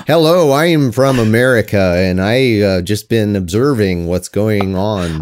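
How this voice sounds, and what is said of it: Doctor Strange style put-on accent. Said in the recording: “Doctor Strange type accent”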